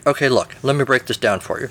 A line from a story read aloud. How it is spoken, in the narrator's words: Merlin says